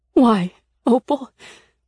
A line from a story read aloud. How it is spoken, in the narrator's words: said, her voice cracking